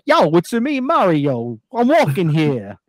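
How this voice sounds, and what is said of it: Put-on Brooklyn accent as Mario. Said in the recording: “Why do they have Brooklyn accents?”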